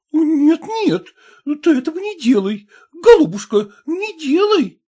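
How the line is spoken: Frightened exclamation. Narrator (Russian): испуганно воскликнула мать

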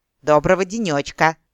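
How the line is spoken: Angry bark right in ear. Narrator (Russian): злобно рявкнула Эрин Рандиру прямо на ухо вредная дриада

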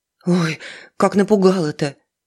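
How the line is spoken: Breathed out. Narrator (Russian): выдохнула Алиса

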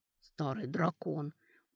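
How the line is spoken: Whisper from ahead. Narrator (Russian): прошептал кто-то впереди

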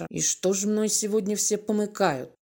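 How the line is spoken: Muttered to himself. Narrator (Russian): буркнул про себя Володя

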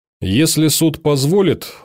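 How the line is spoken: Even voice. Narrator (Russian): ровным голосом произнес Бергер

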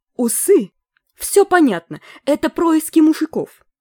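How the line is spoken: Yell. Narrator (Russian): завопила главврач

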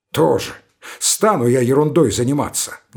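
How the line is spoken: Grumbling. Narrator (Russian): заворчал Веткин

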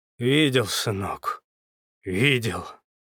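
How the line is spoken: Hoarse wheeze. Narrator (Russian): просипел он

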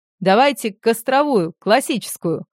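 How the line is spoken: Loud announcement. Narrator (Russian): Дитько громко объявил

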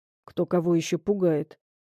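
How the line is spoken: Muttered. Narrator (Russian): пробормотал он

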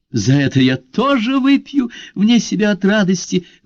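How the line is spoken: Exclamation. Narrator (Russian): воскликнула Марио Грация

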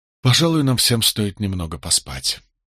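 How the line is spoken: Tired. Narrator (Russian): устало предложил я

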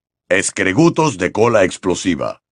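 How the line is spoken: Grunted. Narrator (Spanish): gruñó Hagrid

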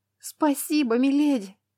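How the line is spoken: Sobbing. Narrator (Russian): Лана всхлипнула

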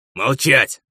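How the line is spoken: Barking. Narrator (Russian): рявкнул Луций

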